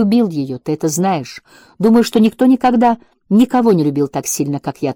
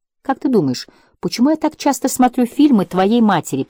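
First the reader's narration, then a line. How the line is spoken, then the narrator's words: Whisper. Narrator (Russian): прошептал Тимоти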